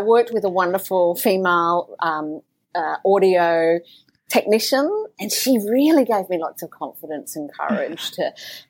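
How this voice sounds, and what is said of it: Strong Australian accent. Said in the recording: “I've got such an Australian accent”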